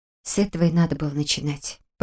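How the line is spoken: Small rat muttering. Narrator (Russian): пробормотала крыска

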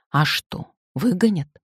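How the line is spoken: Plain. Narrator (Russian): спросил муж

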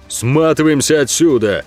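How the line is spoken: Barking shout. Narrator (Russian): гаркнул Ог

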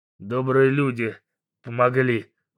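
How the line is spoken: Gruff grumble. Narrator (Russian): буркнул Бугай

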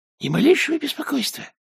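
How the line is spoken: Squeak, chief thief. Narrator (Russian): пискнул главный вор

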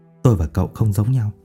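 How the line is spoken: Old man muttering. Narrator (Vietnamese): Ông miệng lẩm bẩm

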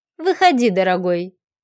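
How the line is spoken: Affectionate cooing. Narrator (Russian): проворковала она ласковым тоном

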